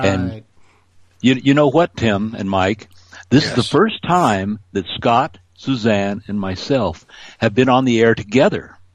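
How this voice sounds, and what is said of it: Rich, polished radio-announcer voice. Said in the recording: “you got a great radio voice, man”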